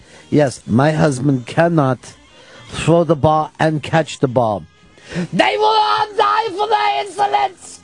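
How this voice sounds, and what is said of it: Put-on German accent. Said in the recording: “there's the German accent is straight S&M”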